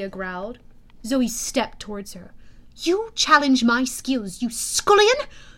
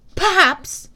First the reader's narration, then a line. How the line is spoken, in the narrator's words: Zoe snapped